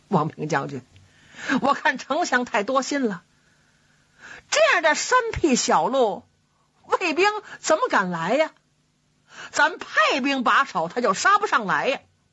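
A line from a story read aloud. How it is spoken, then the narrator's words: Laughing. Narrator (Chinese): 马谡笑了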